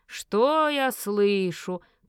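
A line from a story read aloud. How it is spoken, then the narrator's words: Father drawling. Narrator (Russian): протянул отец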